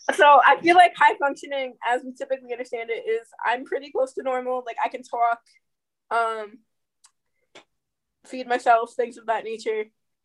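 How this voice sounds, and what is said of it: New York accent. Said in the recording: “I just hear New York. ... I'm hearing New York. And maybe a little bit of the spasm in your voice”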